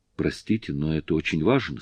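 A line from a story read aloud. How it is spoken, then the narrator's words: Plain. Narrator (Russian): сказала она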